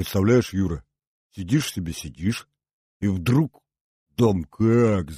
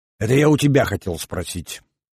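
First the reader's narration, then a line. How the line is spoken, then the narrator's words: Grumpy grumble. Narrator (Russian): сварливо пробурчал Юве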